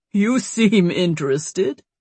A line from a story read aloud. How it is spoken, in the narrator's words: he said with a laugh